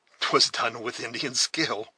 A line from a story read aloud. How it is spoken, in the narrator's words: said, laughing inwardly, but with vast satisfaction